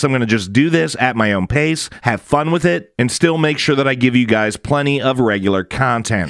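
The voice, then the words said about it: Slightly gritty, hoarse voice. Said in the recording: “my voice is still a little, as you can hear, a little gritty as I continue to get over this sinus infection”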